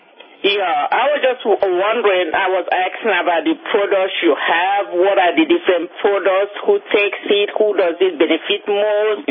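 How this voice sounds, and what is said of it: Strong Nigerian accent. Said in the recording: “You have a little bit of an accent... I have clear accent. I am from Nigeria... Not a little bit. I have a big accent.”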